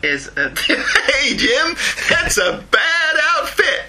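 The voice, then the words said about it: Deliberately bad American accent. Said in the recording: “That was my terrible American accent.”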